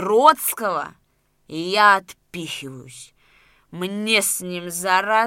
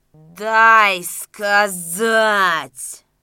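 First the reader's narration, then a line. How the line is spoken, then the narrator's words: Angry growl. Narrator (Russian): зарычал Макар, вспыхнув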